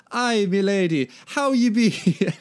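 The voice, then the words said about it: Put-on Irish accent drifting Jamaican. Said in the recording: “donning his best Celtic accent ... Now I'm doing Jamaican accidentally. ... They can be Irish Jamaicans.”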